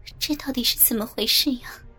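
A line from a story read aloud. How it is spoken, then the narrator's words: Mumbling. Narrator (Chinese): 雅欣的嘴巴还在嘟囔着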